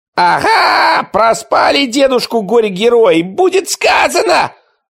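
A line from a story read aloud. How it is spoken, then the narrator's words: Yelling. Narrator (Russian): заорал Ничевок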